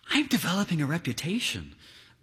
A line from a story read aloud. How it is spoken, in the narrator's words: whispers an affable man at the ballpark